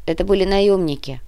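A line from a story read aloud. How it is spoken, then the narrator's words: Grumbling. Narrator (Russian): проворчал тот, что тащил Сергея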